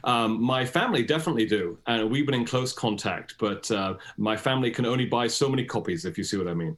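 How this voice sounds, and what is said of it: British accent. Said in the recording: “despite this British accent”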